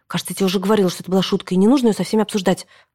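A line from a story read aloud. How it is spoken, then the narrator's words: Hissed. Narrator (Russian): прошипела она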